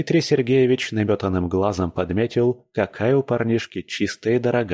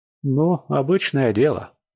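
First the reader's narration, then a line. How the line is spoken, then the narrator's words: Sighing young lad. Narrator (Russian): вздохнул паренек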